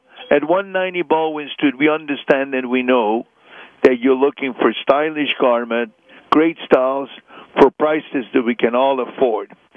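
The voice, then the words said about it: Hungarian accent. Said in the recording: “I still have my Hungarian accent, and I'm proud of it”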